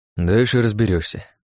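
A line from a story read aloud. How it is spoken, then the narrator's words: Sigh. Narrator (Russian): вздохнул Иван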